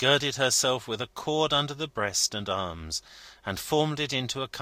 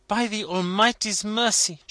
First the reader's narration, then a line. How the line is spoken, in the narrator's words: she exclaimed